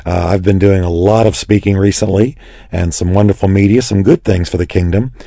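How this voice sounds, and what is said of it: Hoarse, worn, raspy voice. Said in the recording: “sounding like Rod Stewart ... my voice is a little bit worn ... my voice is a little weaker than usual”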